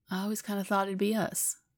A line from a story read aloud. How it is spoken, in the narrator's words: Biddy says with a sigh